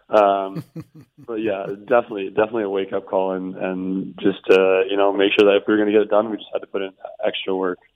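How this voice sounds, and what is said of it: Hoarse, fading voice. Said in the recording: “I'm losing my voice a little bit... you're losing the voice a little bit”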